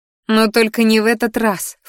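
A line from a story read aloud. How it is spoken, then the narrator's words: Snort. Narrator (Russian): фыркнула я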